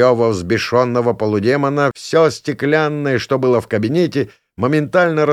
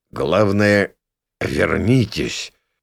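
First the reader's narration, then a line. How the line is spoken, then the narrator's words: Trembling voice. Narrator (Russian): дрогнувшим голосом ответил на этот лютый крик Минос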